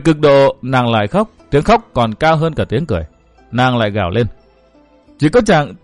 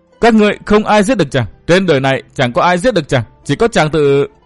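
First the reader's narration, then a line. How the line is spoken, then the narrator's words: Sudden manic laughter. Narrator (Vietnamese): Thiết Tâm Lan đột nhiên bật cười cuồng dại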